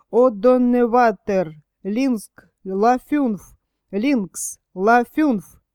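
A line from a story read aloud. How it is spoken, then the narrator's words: Indistinct hoarse angry bass. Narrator (Russian): менее отчетливо другой голос, хриплый и сердитый, пробасил по-немецки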